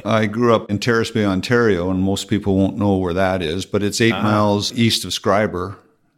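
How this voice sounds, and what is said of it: Slight Canadian accent. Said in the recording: “you probably heard a little bit of the Canadian accent from both of us”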